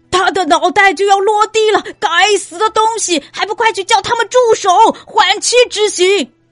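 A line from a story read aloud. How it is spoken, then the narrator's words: Panicked shouting. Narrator (Chinese): 国王吓得不知如何是好，又叫又吼道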